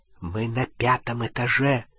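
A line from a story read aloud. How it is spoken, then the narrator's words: Whisper. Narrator (Russian): прошептал он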